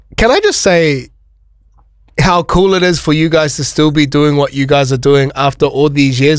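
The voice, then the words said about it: Very thick New Zealand accent. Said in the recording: “probably the thickest Kiwi accent you're going to hear all day”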